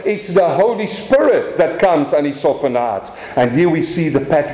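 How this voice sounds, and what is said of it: South African accent. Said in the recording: “my South African accent”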